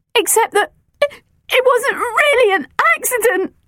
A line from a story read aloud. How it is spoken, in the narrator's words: gasped